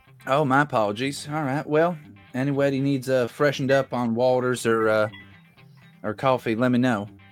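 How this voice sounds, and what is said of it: Slips into a Southern accent. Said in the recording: “my accent might have slipped into the southern way of saying coffee”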